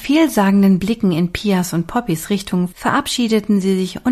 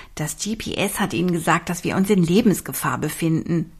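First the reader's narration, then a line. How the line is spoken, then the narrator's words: Plain. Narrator (German): sagte Olivia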